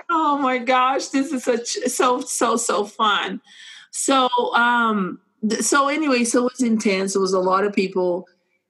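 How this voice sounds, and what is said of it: Speaks with a noticeable accent. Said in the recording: “not everybody is going to be okay with my accent”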